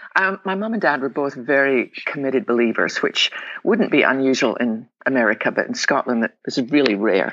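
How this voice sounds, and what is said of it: Scottish accent. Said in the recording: “I was born on the west coast of Scotland. Probably tell my accent.”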